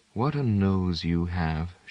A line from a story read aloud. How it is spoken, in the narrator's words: she murmured